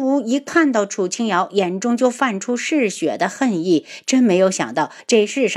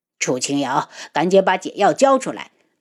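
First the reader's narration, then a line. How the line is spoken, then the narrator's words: Cold voice. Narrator (Chinese): 楚清瑶冷声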